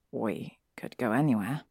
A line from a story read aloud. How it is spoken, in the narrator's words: Harry says instead, in his quiet voice